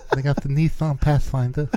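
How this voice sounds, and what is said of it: Mike Tyson impression with lisp. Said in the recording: “my Mike Tyson impression”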